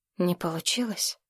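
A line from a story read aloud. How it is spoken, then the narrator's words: Whispered. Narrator (Russian): шепотом сказал Платон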